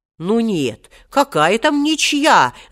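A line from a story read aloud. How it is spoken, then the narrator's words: Protesting. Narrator (Russian): запротестовал Хоттабыч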